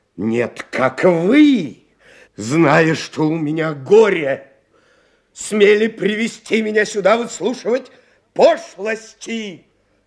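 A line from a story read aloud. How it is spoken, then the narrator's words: Shout. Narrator (Russian): крикнул доктор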